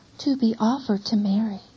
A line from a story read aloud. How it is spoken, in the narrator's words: says